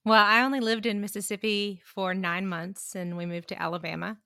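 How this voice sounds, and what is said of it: Southern US accent. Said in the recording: “Couldn't tell by the accent.”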